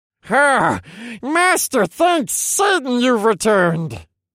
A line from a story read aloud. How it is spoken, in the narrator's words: He roared with delight in my head